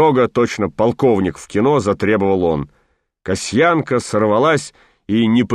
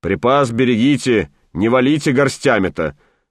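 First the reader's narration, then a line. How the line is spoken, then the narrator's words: Stern instruction. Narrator (Russian): строго наказывал большой начальник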